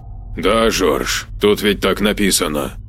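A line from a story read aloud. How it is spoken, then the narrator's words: Displeased grumble. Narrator (Russian): недовольно пробурчал Саид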